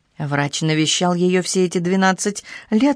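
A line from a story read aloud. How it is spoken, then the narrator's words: Plain. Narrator (Russian): сказала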